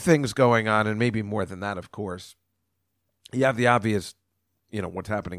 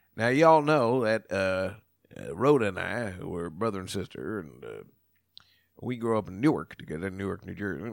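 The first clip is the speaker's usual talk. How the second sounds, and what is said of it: Put-on Southern accent. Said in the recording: “now I'm using my Southern ad... I'm talking like my Uncle”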